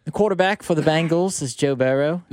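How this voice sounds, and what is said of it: Put-on accent. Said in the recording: “You could do your accent again. Your accent when you talk about Burrow.”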